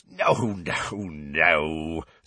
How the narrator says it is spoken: said Hagrid, chuckling

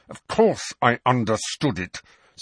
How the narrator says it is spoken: said Professor McGonagall, her teeth clenched so tightly the words came out a little muffled

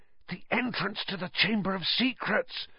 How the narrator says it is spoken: said hoarsely

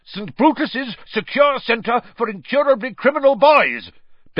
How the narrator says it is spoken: bellowed Uncle Vernon, a definite note of panic in Uncle Vernon's voice

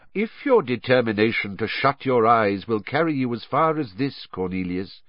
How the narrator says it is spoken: said Dumbledore

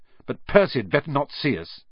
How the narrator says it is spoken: he snapped

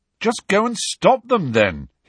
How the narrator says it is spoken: he said irritably

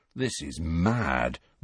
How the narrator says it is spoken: Ron murmured

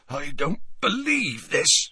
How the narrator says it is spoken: said Hagrid hoarsely

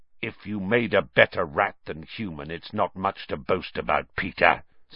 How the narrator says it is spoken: said Black harshly

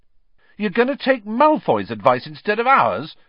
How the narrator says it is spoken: said Ron furiously

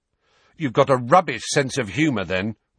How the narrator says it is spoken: Ron snapped

